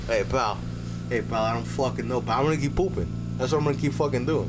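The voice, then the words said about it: Shifting through several put-on accents. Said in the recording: “I went, like, fucking 9 different accents.”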